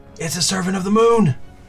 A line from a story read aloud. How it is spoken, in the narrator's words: you hear him shout